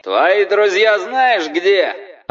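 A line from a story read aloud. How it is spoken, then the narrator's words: Yelling through loudspeaker. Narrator (Russian): орал через диспетчерский суперусилитель какой-то люмпен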